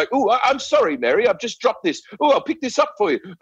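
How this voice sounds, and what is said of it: Put-on posh British romcom accent. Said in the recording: “in romantic comedies... there'll be a British person like... They Hugh Grant it around”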